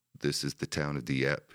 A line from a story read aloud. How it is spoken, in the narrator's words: he said